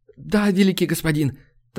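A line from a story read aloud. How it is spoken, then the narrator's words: Hurried babbling. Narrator (Russian): торопливо залепетал солдат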